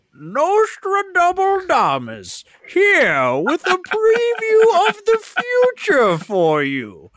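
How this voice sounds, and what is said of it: Theatrical character voice. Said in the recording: “he did the voice”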